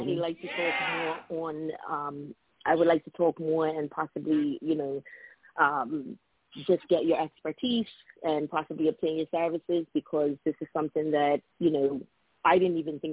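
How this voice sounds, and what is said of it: Foreign accent. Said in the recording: “someone with your accent right now, you're very accepting in the United States right now. People are really being drawn to that, you know, to that accent ... just from your voice”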